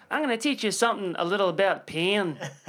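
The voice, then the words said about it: Put-on Irish accent. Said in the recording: “he says it in a full pretend Irish accent.”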